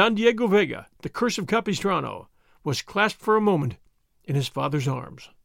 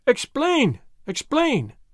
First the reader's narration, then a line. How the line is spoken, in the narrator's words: they cried